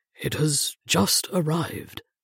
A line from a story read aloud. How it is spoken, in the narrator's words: Matthews mumbled, unable to look me in the eye